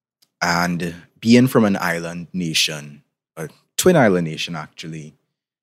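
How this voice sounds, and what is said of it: Trinidadian Caribbean accent. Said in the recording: “in case you can tell by my accent, I'm from the Caribbean, particularly from Trinidad and Tobago”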